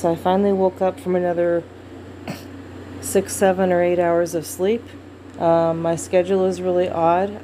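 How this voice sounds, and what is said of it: Thick, groggy voice. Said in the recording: “my voice is a little thick from disuse”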